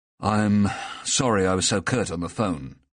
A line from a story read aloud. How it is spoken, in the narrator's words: said wearily